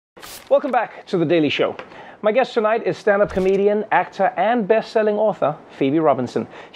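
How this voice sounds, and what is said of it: Speaks with a distinct accent. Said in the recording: “I sound way more impressive through your accent. ... even if it's not in my accent”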